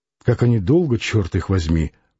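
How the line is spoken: Muttering. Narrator (Russian): пробормотал он

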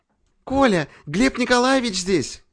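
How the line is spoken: Joyful exclamation. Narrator (Russian): радостно воскликнула Наташа

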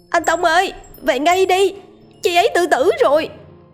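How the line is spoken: Loud distant shout. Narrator (Vietnamese): tiếng em gái anh Tông đứng từ nơi rào chắn hét to

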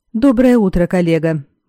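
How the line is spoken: Cheerful greeting. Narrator (Russian): бодро поприветствовал Валански

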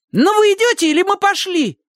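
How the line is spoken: Angry shout. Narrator (Russian): Со злостью крикнула Сонька

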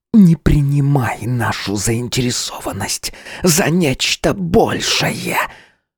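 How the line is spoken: Hissing in face. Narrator (Russian): прошипела мне в лицо Маарет

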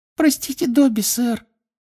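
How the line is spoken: Guilty squeak. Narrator (Russian): виновато пискнул эльф

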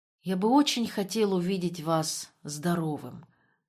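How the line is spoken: Sniffling whisper. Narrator (Russian): прошептал Вебер, снова сморкаясь

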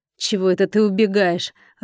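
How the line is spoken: Growled. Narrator (Russian): рыкнул

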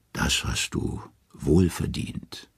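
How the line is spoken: Gentle. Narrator (German): sanft sagt sie

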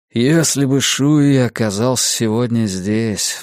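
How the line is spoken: Sighing. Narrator (Russian): вздохнул Стью

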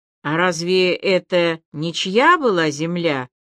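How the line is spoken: Plain. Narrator (Russian): спросила Аля

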